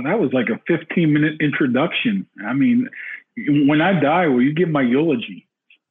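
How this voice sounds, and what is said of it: Pittsburgh accent. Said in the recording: “You got a Pittsburgh accent.”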